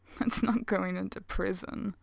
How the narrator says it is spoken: Jin says with a mocking grin

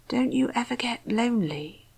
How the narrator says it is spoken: Rodney asked, his voice barely above a whisper

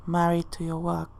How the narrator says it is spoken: John mumbles under his breath

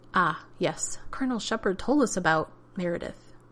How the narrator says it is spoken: Radek chuckled

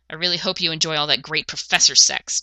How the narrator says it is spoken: John hissed

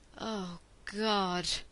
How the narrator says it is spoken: Jack groaned

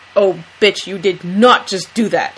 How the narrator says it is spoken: Dean growls

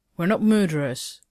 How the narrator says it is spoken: Evil Carter snapped

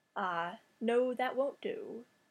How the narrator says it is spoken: said Scratch, in a delicately modulated tone of polite regret

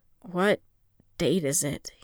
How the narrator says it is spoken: he asked hesitantly

